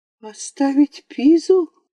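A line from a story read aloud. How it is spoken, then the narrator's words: Exclamation. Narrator (Russian): воскликнула Нанина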